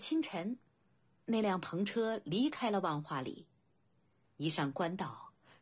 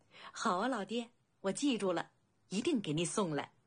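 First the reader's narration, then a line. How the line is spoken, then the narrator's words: Loud laughter. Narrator (Chinese): 白金青年大笑起来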